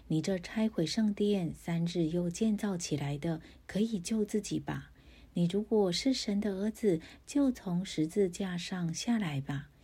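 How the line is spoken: Mocking. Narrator (Chinese): 从那里经过的人讥笑他，说

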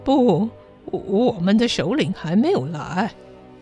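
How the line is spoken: Whispering. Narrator (Chinese): 鲁贝特小声地说

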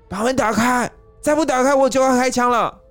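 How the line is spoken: Threatening shout. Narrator (Chinese): 都警……威吓地喊道

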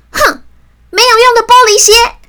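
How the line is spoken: Angry roar. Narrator (Chinese): 大姐一气之下，大吼着

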